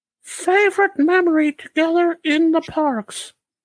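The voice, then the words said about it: Imitates another person's voice. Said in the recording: “my Sam impression ... That is hauntingly similar.”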